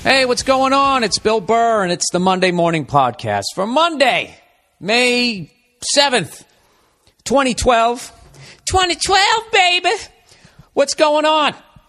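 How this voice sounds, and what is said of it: Yelling, loud energetic delivery. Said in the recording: “Why am I yelling? Why am I yelling?”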